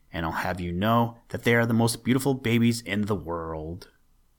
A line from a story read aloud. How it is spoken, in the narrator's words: sputtered